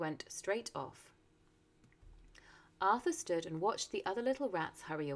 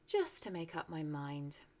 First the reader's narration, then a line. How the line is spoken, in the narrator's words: he said to himself dreamily